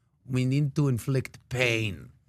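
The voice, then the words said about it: Put-on Russian mafia accent. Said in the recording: “Mafia style. ... I went Russian with that accent. ... It was a Putin thing”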